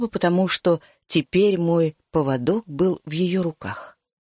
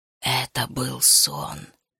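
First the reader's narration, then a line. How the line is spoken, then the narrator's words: Whisper. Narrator (Russian): шепнула я Решаи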